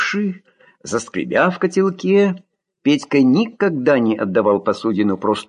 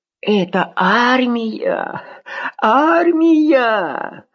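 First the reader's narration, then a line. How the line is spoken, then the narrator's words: Sobbing. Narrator (Russian): Долго потом еще всхлипывал Петька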